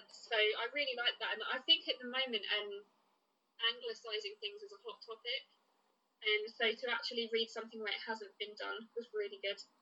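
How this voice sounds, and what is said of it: Essex English accent. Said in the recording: “you and I are from Essex, and we've got a specific accent, which we can't hear, but others can”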